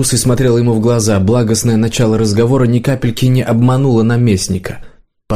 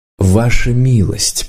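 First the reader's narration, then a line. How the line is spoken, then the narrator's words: Quiet. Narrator (Russian): проговорил Варан негромко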